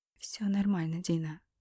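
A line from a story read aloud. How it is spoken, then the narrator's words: Muttering. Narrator (Russian): пробормотала она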